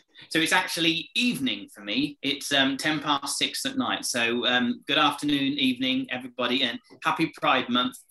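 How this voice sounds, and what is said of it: English accent. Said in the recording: “I'm from England, if you didn't get from the accent.”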